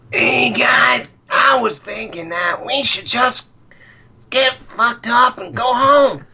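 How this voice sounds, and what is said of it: Impression of a stoner film character. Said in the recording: “of the stoner kid in Cabin in the Woods ... It sounded like Mr. Hankey when you did it ... Mr. Hankey meets the pothead from Cabin.”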